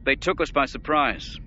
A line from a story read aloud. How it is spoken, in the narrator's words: the Grand Admiral said irritably